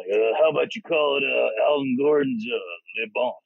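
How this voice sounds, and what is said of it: Imitates another person's voice. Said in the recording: “He talks to us like this. ... that was a great impersonation. Good impression”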